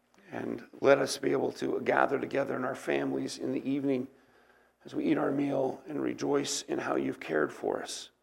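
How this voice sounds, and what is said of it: Voice giving out, strained. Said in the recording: “losing my voice rapidly”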